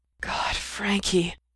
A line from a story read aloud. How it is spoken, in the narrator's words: moan